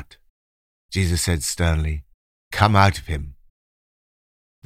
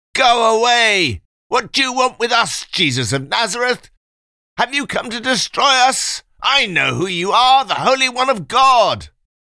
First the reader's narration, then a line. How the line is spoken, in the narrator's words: He cried out at the top of his voice